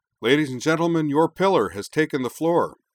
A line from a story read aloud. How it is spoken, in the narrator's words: Wakaba bellowed